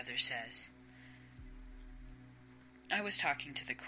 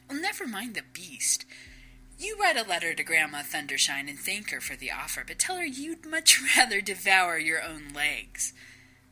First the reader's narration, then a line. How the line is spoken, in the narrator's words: chuckles